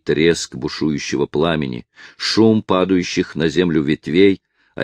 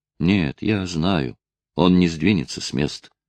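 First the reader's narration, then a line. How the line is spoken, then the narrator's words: Eerie barely audible voice. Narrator (Russian): ответил юноша жутким, еле слышным голосом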